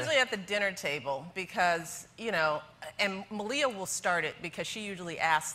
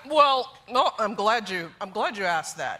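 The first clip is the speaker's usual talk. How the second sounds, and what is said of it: Imitates another person's voice. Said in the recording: “we all three of us have good impressions of Barack ... He's like”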